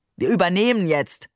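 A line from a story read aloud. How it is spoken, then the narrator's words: Tossed-off remark. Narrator (German): warf er den Passagieren entlang des Korridors zu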